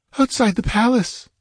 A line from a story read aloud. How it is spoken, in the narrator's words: she whimpered